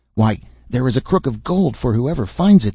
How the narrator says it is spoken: they cried, so eager were they for the gold

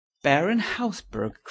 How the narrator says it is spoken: cried Hughie

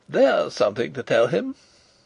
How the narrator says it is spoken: said Rupert carelessly

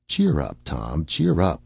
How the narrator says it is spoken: said I

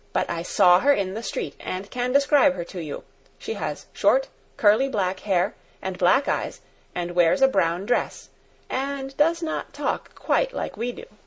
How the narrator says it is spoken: said in a determined voice

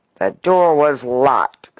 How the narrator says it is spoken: snarled the eminent lobbyist

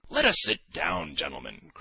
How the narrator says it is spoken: cried Simonov

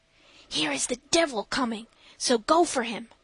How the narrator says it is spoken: Miss Groop whispered

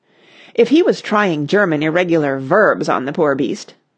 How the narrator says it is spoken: said Clovis

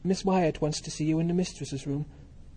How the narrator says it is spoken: said little girl, gasping

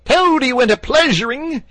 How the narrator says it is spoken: he yelled

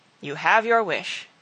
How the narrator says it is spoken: answered Richard

